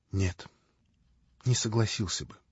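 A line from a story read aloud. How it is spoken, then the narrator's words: Quiet speech. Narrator (Russian): тихо проговорил Алеша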